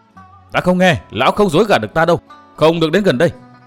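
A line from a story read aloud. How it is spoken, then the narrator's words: Shouting. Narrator (Vietnamese): Cố Kiếm Nam quát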